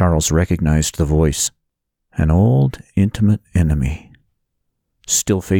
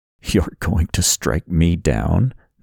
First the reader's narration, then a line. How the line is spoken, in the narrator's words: the voice said with a chuckle